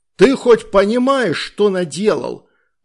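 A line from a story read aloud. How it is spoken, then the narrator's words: Yelling. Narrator (Russian): орал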